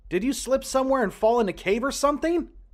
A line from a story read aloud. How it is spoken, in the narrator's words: I yelled out